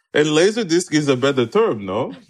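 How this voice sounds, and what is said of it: Bad put-on Russian accent. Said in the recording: “that's my bad Vladimir Putin accent.”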